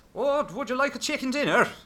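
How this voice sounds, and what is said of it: Put-on Irish accent. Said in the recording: “I wanted to speak in an Irish accent... But the kind of Irish accent from Waking Ned”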